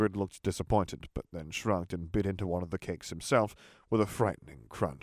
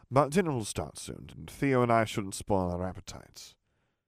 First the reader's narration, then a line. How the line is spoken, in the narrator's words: Harry said smoothly